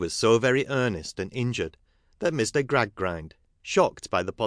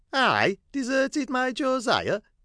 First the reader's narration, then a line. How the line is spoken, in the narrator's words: cried Mrs